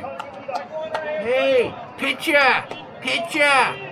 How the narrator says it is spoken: shouted Bucky

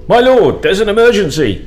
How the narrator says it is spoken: shouted a trooper

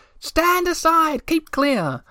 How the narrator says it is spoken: it shouted

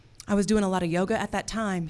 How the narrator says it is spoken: said

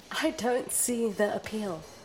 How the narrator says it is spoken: she said, her voice low and sultry

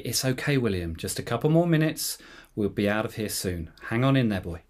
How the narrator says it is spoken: the grandpa calmly say

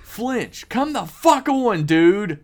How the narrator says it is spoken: Hunter yelled after him

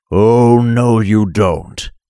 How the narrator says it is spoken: shouted Lord Bruticus

